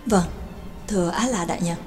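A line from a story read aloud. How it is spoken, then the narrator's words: Lowered voice. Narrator (Vietnamese): Lữ Cánh Nam hạ giọng nói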